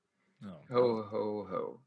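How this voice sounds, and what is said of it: Terrible Santa Claus impression. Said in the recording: “Terrible Santa impression.”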